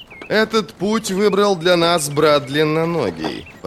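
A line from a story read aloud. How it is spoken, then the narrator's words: Grumbling mage. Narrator (Russian): проворчал маг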